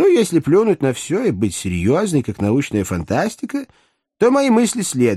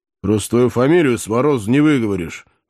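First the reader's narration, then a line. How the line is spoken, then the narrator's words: Gruff snort. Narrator (Russian): хмыкнул в усы бывший подъясаул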